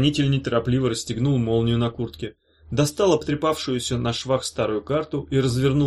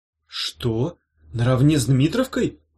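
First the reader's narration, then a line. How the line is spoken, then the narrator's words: Astonished exclamation. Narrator (Russian): пораженно воскликнул Меф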